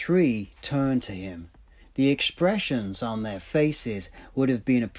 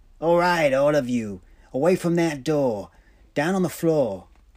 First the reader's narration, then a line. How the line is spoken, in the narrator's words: called out